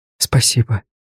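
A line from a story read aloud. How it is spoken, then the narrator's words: Whisper. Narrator (Russian): прошептала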